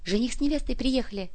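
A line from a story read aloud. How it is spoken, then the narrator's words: Murmured whispering among guests. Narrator (Russian): Среди дорогих гостей звучал шепоток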